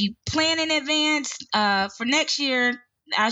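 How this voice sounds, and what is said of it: Usual voice. Nothing is said of it.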